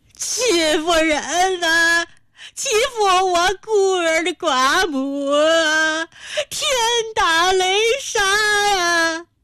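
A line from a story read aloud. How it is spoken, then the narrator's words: Old woman wailing in grief. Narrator (Chinese): 陈家老太悲愤地跺着脚，麻子脸涨得像是要冒血，仰天嚎哭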